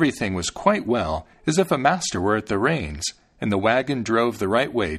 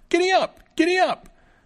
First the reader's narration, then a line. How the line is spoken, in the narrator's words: the little fellow cried out